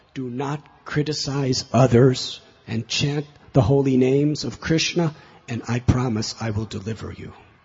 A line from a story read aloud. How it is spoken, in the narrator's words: he cried out